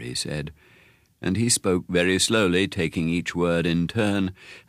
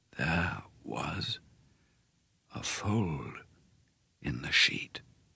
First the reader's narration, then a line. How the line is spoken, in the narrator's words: he said, speaking more slowly than ever now, and so softly I had to lean close to hear him